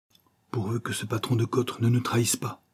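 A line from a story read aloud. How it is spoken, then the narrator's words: Mother murmuring. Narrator (French): murmura sa mère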